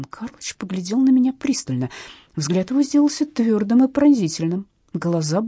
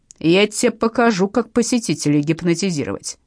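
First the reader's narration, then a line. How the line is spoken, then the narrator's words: Loud bark. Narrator (Russian): рявкнула в полный голос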